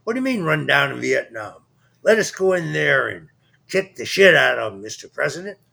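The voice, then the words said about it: Imitates another person's voice. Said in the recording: “my best Curtis LeMay impression”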